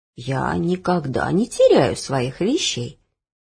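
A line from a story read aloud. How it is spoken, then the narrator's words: Calm answer. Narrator (Russian): спокойно отвечала бабушка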